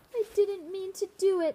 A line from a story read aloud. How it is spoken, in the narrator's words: sobbed Tall